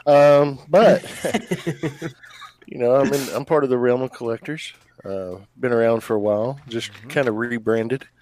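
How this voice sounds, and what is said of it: Unusually deep voice. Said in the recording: “I got this deep voice. It's fucked up. I can't get rid of it.”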